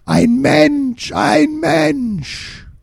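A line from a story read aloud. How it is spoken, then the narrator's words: Creature screaming. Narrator (German): Dann sah ihn ein grün-schwarzes Wesen und schrie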